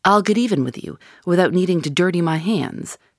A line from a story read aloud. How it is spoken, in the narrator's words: said his enemy